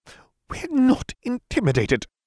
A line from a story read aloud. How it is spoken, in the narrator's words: Umbridge spluttered